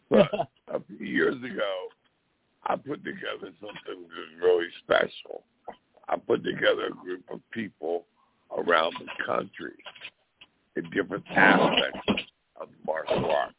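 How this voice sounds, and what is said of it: Gruff, strained, hoarse voice. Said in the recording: “I'm losing my voice, so I apologize. I'm so gruff.”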